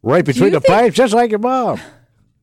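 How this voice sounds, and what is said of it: Bad Don Stevens impression. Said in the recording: “It's a terrible Don Stevens impression.”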